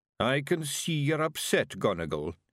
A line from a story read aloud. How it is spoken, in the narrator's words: he mumbled